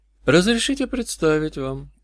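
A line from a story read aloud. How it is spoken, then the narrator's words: Quiet sinner speaking. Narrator (Russian): сказал грешник негромко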